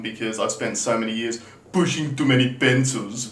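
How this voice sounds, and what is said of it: Imitates another person's voice. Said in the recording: “my terrible Arnie impersonation ... that's better”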